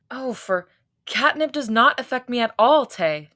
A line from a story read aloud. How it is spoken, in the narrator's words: Hoseok groaned